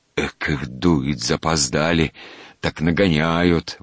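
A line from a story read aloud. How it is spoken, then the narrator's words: Old watchman grumbling. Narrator (Russian): ворчал сторож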